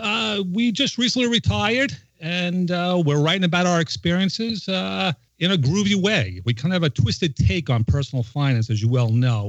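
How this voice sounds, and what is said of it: New York accent. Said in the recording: “I can't believe with that accent you'd be from New York... That's my accent, the bane of my existence.”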